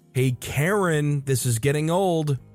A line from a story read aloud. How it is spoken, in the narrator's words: He yells over at her door